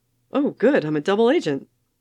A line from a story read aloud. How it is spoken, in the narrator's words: Clint said brightly